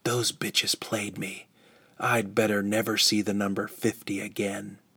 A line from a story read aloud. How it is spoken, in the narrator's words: whispered